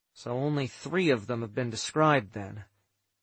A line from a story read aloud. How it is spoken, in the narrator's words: I murmured, thinking